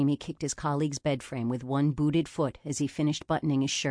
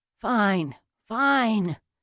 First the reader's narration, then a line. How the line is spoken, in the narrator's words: Leon yawned